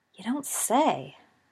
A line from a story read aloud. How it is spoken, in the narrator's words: murmured Sirius